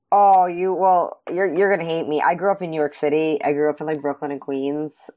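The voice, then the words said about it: Heavy New York accent. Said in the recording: “people always say I have a very heavy accent when I go down south”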